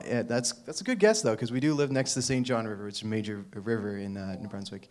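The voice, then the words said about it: Slight American accent, a bit rural. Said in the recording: “I guess I got a bit of an American accent, and I probably sound a little redneck”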